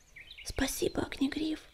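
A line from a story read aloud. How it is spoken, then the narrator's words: Whispered. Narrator (Russian): прошептала она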